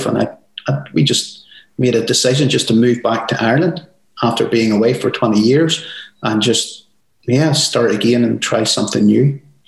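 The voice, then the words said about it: Irish accent. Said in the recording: “accent, because as Americans, we always get jealous of a good Irish accent,”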